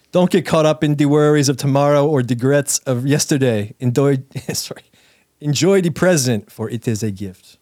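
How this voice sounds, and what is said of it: Poorly done put-on accent. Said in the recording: “Making Miss Cleo... My accent sucks.”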